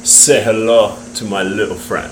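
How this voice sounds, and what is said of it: Imitated movie character accent. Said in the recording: “I probably butchered that accent ... I think you probably did it pretty well.”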